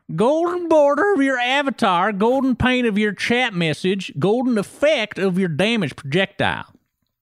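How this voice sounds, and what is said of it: Exaggerated redneck accent. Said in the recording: “Can I do a redneck voice? ... Do you know what a redneck accent sounds like? Because mine is very exaggerated”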